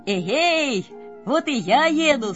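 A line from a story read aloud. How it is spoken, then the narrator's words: Shouting. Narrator (Russian): снова крикнул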